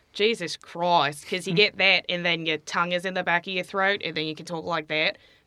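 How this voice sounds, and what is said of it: Put-on Australian accent. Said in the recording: “I guess I'll do it in Australian.”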